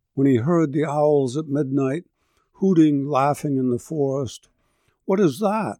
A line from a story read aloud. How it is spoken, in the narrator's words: he cried in terror